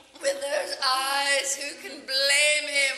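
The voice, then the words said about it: Stage accent with drawn-out syllables. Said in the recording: “your accent in this play ... the syllables, get drawn out, like the way you say eyes, blame, even teeth”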